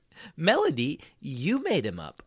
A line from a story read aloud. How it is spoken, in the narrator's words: I exclaimed